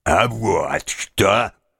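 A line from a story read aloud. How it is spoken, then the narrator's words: Deep bass voice. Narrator (Russian): сказал он густым басом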